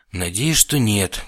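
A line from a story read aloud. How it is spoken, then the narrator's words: Bitter sigh. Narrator (Russian): горько вздохнул я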